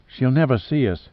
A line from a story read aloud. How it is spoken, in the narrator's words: said Maeve anxiously